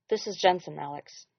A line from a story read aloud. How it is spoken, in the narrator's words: Jared said quietly